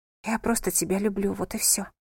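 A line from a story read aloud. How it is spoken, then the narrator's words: Apologetic whisper. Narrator (Russian): прошептала она в оправдание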